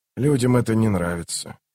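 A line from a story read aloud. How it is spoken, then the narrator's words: Quiet. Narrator (Russian): тихо закончил Ток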